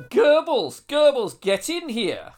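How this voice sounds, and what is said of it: Deliberately bad put-on accent. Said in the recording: “I want full accent action, please. ... we're both awful”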